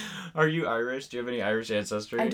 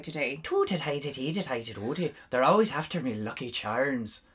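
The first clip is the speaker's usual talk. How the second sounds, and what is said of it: Poor put-on Irish accent. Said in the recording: “how can we do Irish? I don't even know Irish. I'm bad at Irish. ... That's pretty good. ... No. No, that's terrible.”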